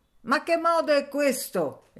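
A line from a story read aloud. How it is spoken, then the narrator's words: Shouting. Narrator (Italian): ella gridava agli scolaretti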